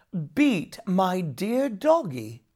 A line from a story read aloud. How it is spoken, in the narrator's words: exclaimed Jamie